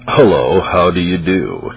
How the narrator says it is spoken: He answered in a voice that was as discourteous and furious snarl, more like the voice of a mad wolf than the voice of a rational man

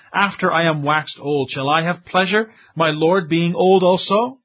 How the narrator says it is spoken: Sarah laughed within herself and said

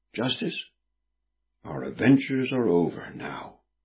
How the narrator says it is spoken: said Prudence quietly

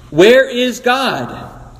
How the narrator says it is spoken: The boy screamed

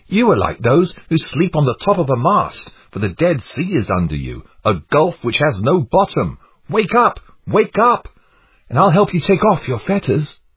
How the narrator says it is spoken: Christian cried

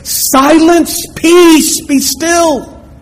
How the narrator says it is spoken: he yelled out with a loud voice

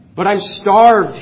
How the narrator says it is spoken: pleaded

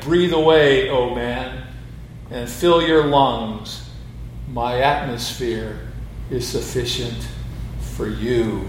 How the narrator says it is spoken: The Creator booms his voice out of heaven saying

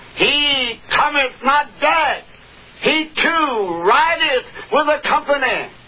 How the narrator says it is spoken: the watchman on the tower called out to Joram, Jezebel's son

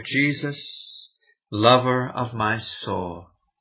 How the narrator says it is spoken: we gently sang together

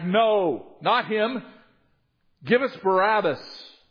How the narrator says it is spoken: They shouted back

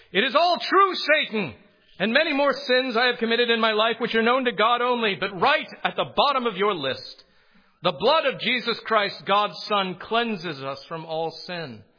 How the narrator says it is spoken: Luther's terrors grew until he finally cried out

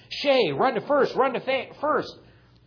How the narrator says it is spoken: Everybody started yelling

